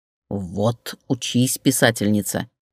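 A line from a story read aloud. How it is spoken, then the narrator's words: Muttered. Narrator (Russian): буркнула Штукина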